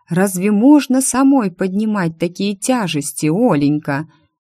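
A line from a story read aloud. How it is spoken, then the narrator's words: Old man, plain. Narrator (Russian): дедушка сказал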